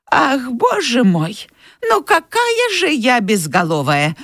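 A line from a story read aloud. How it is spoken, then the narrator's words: Older woman's exclamation. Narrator (Russian): воскликнула тетушка Питти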